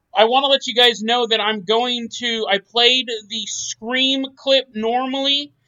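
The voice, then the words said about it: Yelling, loud voice. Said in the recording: “I'm yelling. ... I don't know why I'm yelling. I don't know why I'm yelling.”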